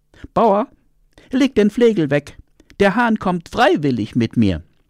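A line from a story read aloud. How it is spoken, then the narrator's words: Fox calling out. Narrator (German): dachte der Fuchs und rief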